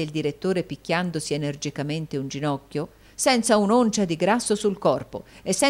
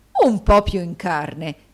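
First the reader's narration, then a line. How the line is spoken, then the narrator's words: Horrified exclamation. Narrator (Italian): esclamò il direttore con orrore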